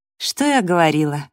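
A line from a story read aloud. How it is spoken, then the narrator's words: Sigh. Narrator (Russian): вздохнула Эбби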